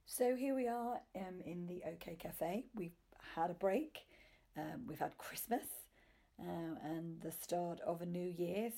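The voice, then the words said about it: Hoarse, sore-throated voice. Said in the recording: “You might be able to hear my voice. I think I've got a little bit of a sore throat”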